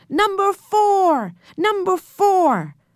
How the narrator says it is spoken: The people began to shout

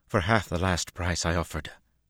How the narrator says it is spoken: Berlaine cut in sharply

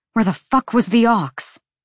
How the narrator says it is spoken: Bryce spat

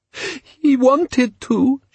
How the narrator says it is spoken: she sobbed

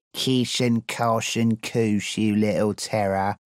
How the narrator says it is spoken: the new Plenny sneered

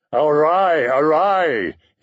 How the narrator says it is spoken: he cried

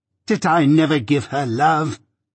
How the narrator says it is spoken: cried Miss Havisham

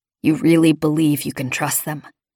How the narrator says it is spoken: Jorgen asked softly

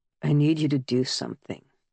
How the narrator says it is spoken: Wallace said, his voice hollow against his palms

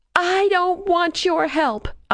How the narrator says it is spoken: I yelled

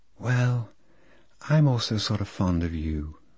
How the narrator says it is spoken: said Lolita in a delayed, soft voice, with a sort of sigh

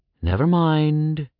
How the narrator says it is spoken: the statue sighed

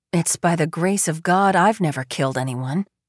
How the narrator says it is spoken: Carson says

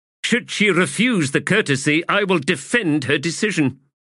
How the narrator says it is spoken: snapped the adjunct

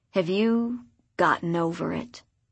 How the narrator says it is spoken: He said the words so bitterly

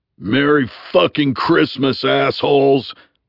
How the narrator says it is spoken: Bunny thundered

